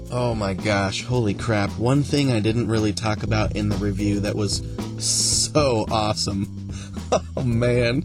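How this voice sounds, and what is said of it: Excited, joyful voice. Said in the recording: “I'm getting so excited... hear the joy in my voice”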